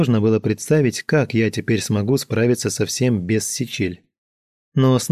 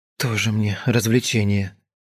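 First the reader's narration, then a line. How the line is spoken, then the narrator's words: Sigh. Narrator (Russian): вздохнула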